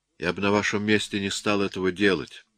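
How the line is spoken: Calm remark. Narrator (Russian): спокойно заметил я

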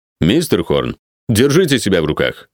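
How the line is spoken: Reproving remark. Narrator (Russian): сделал замечание учителя

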